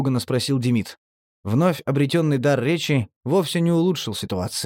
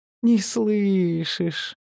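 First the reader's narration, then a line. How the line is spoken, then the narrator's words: Condescending breathy exhale. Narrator (Russian): Улыбаясь почти снисходительно, выдохнул наркоман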